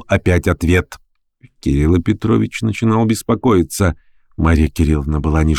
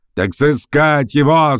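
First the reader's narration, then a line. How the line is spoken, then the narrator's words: Doubtful shout. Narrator (Russian): закричал Троекуров, начинающий сомневаться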